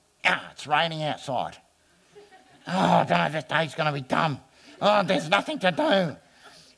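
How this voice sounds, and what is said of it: Imitates another person's voice. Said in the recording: “I don't know who I'm imitating”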